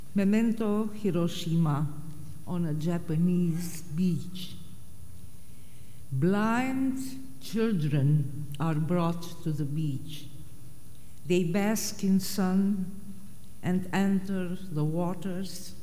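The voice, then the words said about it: Romanian accent in English. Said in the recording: “Nina Cassian of Romania ... forgive or overlook my accent”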